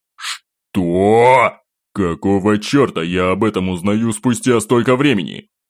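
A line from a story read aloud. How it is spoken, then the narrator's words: Sudden roar. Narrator (Russian): Вмиг взревел Пожарский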